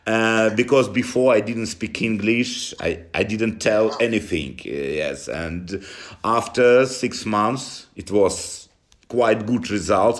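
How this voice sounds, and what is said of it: Strong Russian accent in English. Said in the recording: “you have an unbelievable Russian accent.”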